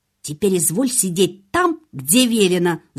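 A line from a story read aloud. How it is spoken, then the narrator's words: Angry hiss. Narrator (Russian): зло прошипела она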